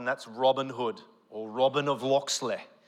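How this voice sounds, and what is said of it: Put-on English accent. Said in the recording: “That's my best impression of an English accent. Please excuse me.”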